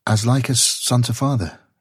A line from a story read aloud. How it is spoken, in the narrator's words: she answered, and hesitantly